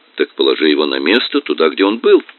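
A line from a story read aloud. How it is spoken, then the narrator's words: Plain. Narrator (Russian): сказал Поль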